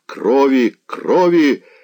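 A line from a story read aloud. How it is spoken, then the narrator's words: Terrible roar. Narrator (Russian): рыкнул он голосом столь ужасным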